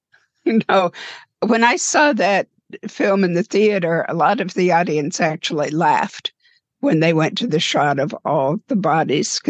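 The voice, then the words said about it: Strained, failing voice. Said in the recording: “before I lose my voice.”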